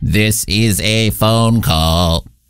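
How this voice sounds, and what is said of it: Robotic voice. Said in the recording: “that was me, not an actual robot. I was doing a voice.”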